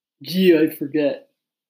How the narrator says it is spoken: Curly chuckled harshly

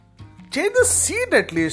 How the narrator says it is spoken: Adi pleaded

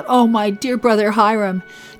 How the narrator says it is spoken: Joseph cried out

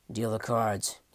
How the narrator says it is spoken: he grumbled

